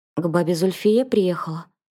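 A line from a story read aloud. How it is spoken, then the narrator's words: Slightly hoarse question. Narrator (Russian): спросил он чуть хриплым голосом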